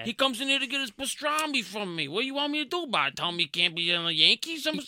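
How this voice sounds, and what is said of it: Exaggerated New Jersey accent. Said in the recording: “miserable Jersey accent”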